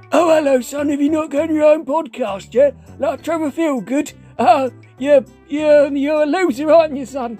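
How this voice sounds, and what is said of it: Imitates another person's voice. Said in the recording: “do a really good impression ... That sounds very close to what he sounds like.”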